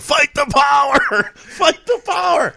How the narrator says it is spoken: I'm yelling

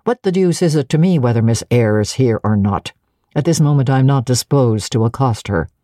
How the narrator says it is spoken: said, impatient yet formal tone

